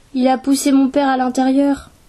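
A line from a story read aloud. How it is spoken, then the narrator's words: Shrill terrified exclamation. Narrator (French): s'exclama Sari d'une voix aiguë et terrifiée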